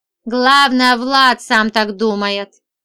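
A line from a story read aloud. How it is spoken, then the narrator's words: Snorting. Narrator (Russian): хмыкнул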